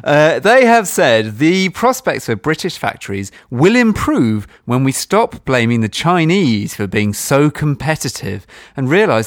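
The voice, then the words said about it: Posh English accent. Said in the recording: “my normal voice, which, as it happens, is quite posh”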